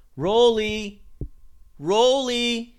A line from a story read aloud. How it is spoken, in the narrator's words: Nikos called out, looking for his favorite little helper, hoping he was still in the lab somewhere